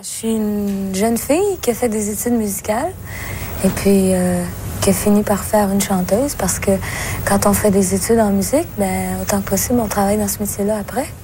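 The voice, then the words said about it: Québécois French accent. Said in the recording (French): “je parle avec un accent. Aujourd'hui, je l'ai beaucoup perdu, mais j'ai l'accent québécois.”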